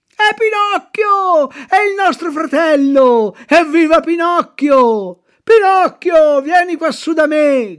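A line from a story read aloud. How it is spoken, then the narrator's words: Shouting. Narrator (Italian): grida Arlecchino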